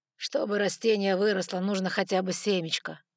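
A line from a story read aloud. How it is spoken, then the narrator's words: Tired. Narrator (Russian): устало ответил Габриэль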